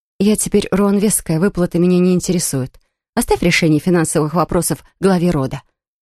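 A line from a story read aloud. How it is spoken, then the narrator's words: Dry curt cutoff. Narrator (Russian): сухо обрубила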